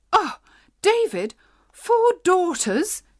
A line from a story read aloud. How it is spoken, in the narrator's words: cried in horror